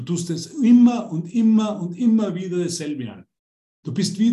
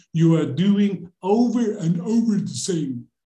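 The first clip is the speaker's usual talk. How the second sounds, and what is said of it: English with a Dutch accent. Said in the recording (German): “Englisch gesprochen im holländischen Akzent”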